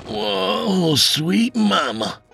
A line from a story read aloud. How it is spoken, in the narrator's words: he moaned